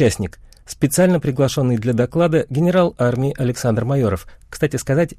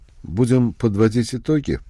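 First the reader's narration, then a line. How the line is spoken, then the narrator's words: Suggestion. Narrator (Russian): предложил Андропов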